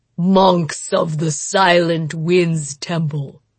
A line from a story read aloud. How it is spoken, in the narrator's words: he rumbled, his terrible voice making the air shiver